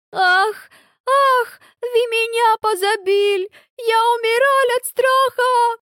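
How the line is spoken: Sobbing. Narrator (Russian): Рыдает Эльза

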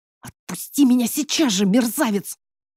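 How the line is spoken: Hissed. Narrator (Russian): зашипела я

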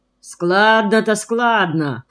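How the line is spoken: Grumbling. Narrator (Russian): проворчал Рыбаков

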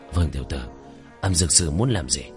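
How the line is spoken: Lowered voice. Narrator (Vietnamese): Hoa Thành ... hạ giọng

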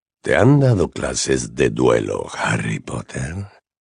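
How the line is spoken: Honeyed question. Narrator (Spanish): preguntó Voldemort, con voz melosa

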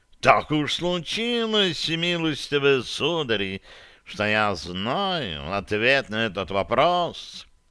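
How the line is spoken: Purring cat. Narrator (Russian): промурлыкал кот да Винчи

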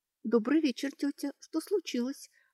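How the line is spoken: Timid question. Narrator (Russian): робко спросила Кейтрия

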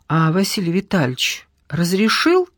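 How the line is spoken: Timid girl's question. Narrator (Russian): робко спросила вторая девушка

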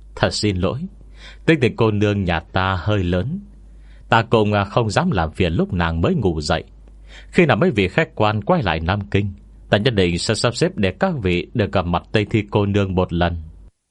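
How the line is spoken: Light laugh, continuing. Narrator (Vietnamese): Tô Bà khẽ cười một tiếng, sau đó quay sang ba người thanh niên nói tiếp

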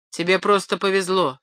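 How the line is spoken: Dry reply. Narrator (Russian): сухо ответил Поль

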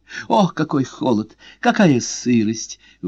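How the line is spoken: Exclaimed. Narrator (Russian): воскликнула Мария Грация

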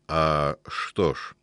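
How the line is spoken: Muffled, halting speech. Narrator (Russian): глухо с остановками заговорил африкан

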